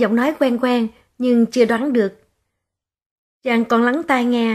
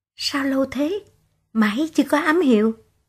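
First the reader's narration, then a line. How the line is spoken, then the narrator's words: Woman whispering. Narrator (Vietnamese): một nàng thì thào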